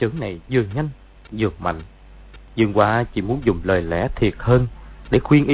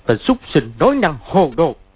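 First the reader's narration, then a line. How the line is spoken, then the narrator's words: Angry shout. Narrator (Vietnamese): Y quát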